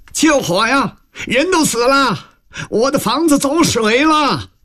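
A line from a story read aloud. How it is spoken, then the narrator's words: Shouting. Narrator (Chinese): 大叫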